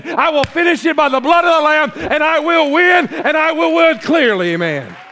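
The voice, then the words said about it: Yelling preacher. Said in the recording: “why are you yelling?”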